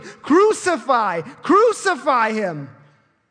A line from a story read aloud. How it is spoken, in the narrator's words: they kept shouting